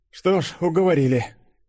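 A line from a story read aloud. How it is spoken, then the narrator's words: Amused snort. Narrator (Russian): хмыкнул Фадеев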